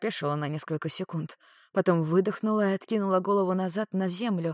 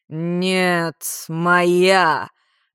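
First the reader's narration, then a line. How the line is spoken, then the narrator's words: Curt growl. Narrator (Russian): рыкнула, как отрезал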